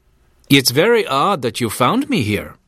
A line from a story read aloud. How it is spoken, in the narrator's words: the man said